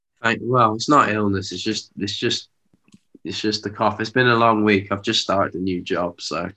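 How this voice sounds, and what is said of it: Rough voice with a cough. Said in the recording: “quite a rough voice, cough and illness”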